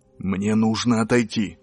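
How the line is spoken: Whisper. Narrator (Russian): шепнул он

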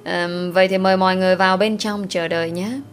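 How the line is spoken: Smiling reply. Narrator (Vietnamese): mỉm cười rồi đáp

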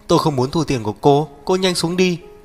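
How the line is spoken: Terrified. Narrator (Vietnamese): Lái xe vô cùng sợ hãi, nói với Đinh Thải Nghiên

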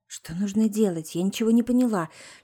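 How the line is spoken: Whispering. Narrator (Russian): шепнула Маруся

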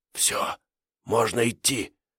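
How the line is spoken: Whisper. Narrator (Russian): шепотом сказал Диконов

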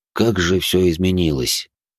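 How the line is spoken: Heavy sigh. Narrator (Russian): Франсуа тяжело вздохнул

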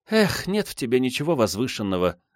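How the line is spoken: Sighing. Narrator (Russian): вздохнула Наумова

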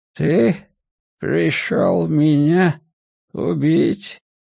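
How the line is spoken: Forced out, strained. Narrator (Russian): наконец выдавил он

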